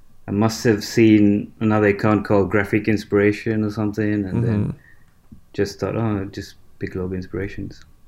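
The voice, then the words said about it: Mixed Australian and Sri Lankan accent. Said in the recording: “you kind of have an unusual accent ... you can't place it. It sounds mostly Australian to me, but maybe there's a little bit of that Sri Lankan accent”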